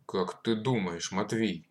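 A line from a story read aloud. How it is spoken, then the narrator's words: Angry question. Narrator (Russian): спросил он сердито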